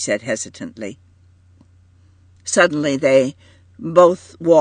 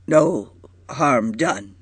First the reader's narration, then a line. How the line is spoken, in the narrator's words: he said brokenly